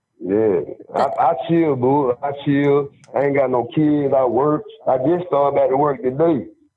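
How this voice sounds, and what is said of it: Alabama Southern accent. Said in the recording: “I'm from Prattville, Alabama... I'm in Montgomery... you got that accent.”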